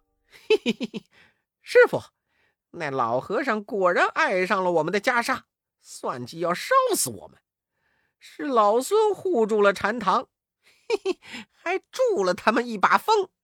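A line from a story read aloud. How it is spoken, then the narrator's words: Laughing. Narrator (Chinese): 悟空笑道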